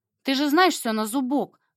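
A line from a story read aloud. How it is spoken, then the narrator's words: Wry snort. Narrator (Russian): хмыкнул он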